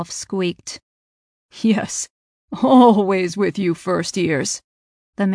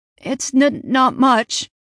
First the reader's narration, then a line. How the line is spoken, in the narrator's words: Ralph stammered